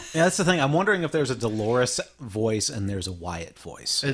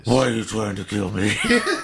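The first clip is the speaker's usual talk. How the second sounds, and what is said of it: Gruff, flat Southern twang character voice. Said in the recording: “There's her Wyatt voice ... her Wyatt voice is like more straight ... there's still a twang, accent? ... her Wyatt voice is more, you know... Gruff? ... Shit kicker”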